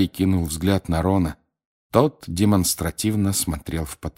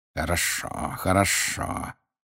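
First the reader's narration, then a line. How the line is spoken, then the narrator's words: Hissing. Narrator (Russian): прошипел снег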